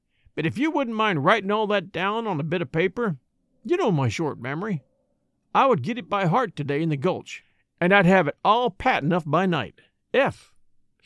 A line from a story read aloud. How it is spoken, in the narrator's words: he added, with a short sigh